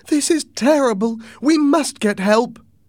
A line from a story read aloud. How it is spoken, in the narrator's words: When my mother saw the captain on the floor, she cried